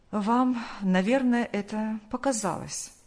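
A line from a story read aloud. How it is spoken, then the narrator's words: Calm. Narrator (Russian): спокойно произнес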